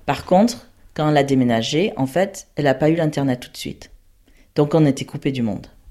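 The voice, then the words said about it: American accent in French. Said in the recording (French): “j'ai perdu mon accent français. Donc j'ai un accent américain”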